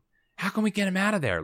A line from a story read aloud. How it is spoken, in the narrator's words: Liz whispers